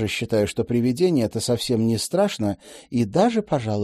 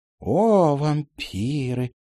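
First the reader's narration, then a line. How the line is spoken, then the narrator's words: Very dreamy drawl. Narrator (Russian): еще мечтательнее протянула мисс Отвертка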